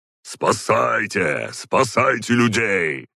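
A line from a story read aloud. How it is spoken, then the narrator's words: Barked. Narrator (Russian): рявкнул Ророгов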